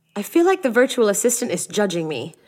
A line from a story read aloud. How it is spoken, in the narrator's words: she blurted